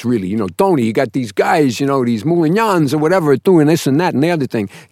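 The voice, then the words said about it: Heavy New Jersey mobster accent. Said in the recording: “Tone the accent down. You're not a Gavone. ... So I was coming on like this ... from New Jersey, yeah. you know, the East Coast sort of feel.”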